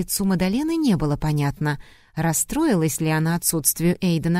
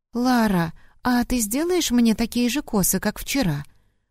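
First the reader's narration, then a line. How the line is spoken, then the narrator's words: Timid request. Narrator (Russian): робко попросила Мадалена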